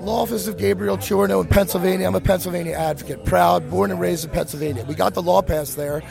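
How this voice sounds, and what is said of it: Hoarse voice. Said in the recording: “Excuse my voice a little hoarse. ... I smoke a lot.”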